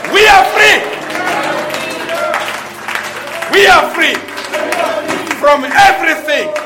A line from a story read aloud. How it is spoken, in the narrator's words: We can shout at the top of our voices